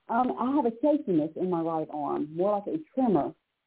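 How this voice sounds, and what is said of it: Strong foreign accent. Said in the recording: “I've got a terrible accent. ... I have a terrible accent.”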